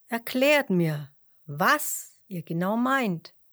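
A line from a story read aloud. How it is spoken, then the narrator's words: Plain. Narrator (German): sagte er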